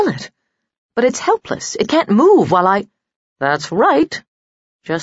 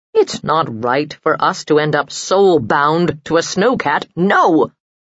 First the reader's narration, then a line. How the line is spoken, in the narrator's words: he said roughly